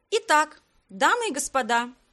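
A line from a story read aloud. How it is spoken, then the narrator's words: Cheerful call. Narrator (Russian): весело позвала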